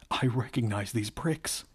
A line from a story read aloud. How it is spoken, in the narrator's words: he laughed